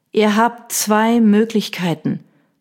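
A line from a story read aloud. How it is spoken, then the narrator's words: Dangerously calm. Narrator (German): sagte ich gefährlich ruhig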